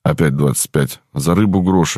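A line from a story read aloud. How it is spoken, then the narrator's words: Sighing. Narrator (Russian): вздохнул я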